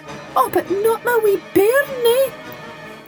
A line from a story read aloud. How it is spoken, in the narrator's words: wailed the old wife